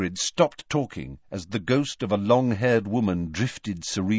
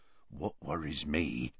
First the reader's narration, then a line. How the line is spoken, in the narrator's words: said Hagrid, lowering his voice